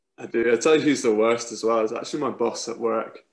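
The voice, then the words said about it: Scottish accent. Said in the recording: “familiar Scottish voices ... the Scottish accent”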